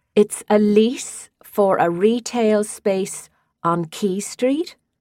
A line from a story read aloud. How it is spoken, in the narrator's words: She said it slowly, as if Tara were a troublesome child